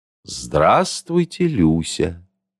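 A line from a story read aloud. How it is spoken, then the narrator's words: Ingratiating greeting. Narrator (Russian): вкрадчиво поздоровался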